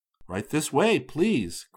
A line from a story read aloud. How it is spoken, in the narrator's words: Chris spoke up brightly